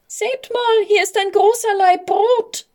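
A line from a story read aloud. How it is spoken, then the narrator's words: Little girl's thin squeak. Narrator (German): piepste ein kleines Mädchen mit dünner Stimme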